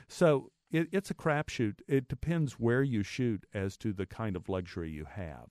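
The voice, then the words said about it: Texas accent. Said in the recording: “because of my accent and my Texas upbringing”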